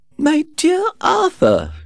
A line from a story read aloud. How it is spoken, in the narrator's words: cried